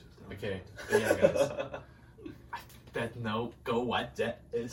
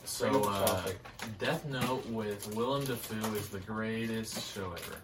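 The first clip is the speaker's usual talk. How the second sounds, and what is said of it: Mumbled, unclear speech. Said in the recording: “You're mumbling a little bit.”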